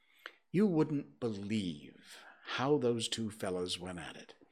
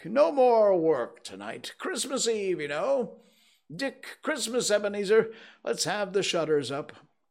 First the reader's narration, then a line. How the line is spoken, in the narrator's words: cried old with a sharp clap of his hands